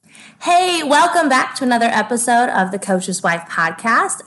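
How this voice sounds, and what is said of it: Scratchy, hoarse voice. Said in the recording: “my voice sounds a little bit scratchy ... hardly any voice ... yelled some things ... my voice has been a little scratchy”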